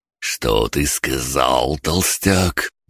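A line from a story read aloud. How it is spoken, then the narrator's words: Unctuous, honeyed question. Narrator (Russian): елейным голосом спросил Чейни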